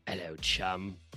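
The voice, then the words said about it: Put-on British accent. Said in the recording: “oh, God, he's British ... my fake accent ... Everybody's accents are fake”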